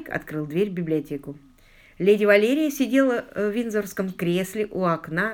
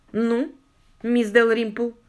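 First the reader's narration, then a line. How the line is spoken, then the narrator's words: Cold question. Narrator (Russian): холодно спросила она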